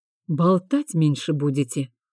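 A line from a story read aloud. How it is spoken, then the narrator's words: Quiet reply. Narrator (Russian): так же тихо ответил Тиан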